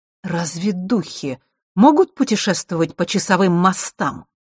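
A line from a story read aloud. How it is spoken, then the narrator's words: Sharp question. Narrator (Russian): резко спросила черная королева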